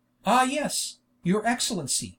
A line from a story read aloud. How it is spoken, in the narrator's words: whispered the Jew, his voice trembling like a street beggar